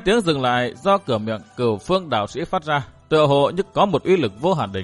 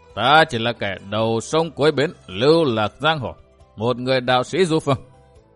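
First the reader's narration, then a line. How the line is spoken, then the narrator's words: Hearty, smiling reply. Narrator (Vietnamese): Cửu Phương đạo sĩ mỉm cười bằng giọng nói hào sảng đáp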